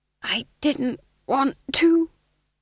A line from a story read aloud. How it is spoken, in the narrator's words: he hissed conspiratorially